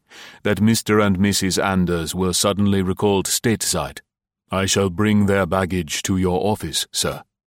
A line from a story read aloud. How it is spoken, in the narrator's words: Dudley said evenly